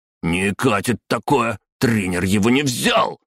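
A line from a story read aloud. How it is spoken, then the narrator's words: Yelling. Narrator (Russian): заорал глиста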